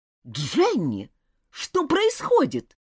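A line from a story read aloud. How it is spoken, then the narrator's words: Irritated exclamation. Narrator (Russian): раздраженно воскликнула мисс Рейнджер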